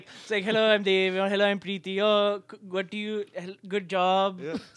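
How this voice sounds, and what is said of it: Put-on Indian accent. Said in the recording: “you slip into an accent ... clearly we're both Indian”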